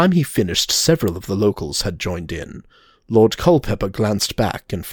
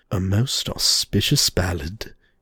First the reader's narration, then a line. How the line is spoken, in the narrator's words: he muttered to himself